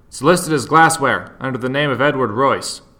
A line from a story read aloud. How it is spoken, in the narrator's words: Harry tossed off an acknowledging shout over his shoulder